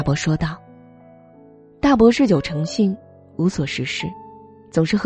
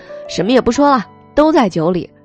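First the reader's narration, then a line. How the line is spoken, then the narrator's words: Loud shout. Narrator (Chinese): 有人高声喊着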